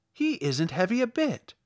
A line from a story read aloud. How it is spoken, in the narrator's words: said Dorothy eagerly